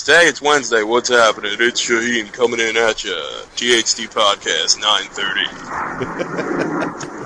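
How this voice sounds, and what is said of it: Imitated radio announcer voice. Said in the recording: “That's a good Shaheen, I must say. ... He has that radio voice.”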